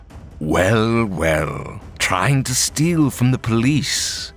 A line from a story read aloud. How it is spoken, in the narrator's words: he growled